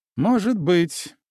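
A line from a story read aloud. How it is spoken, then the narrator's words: Wry grunt. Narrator (Russian): хмыкнул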